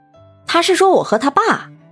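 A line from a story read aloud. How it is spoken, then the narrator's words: Hurried, coaxing. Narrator (Chinese): 李春丽急忙哄着爸爸说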